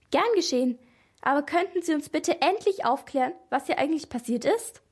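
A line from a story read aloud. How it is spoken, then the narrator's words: Relieved laughing speech. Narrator (German): Maria lachte erleichtert und sagte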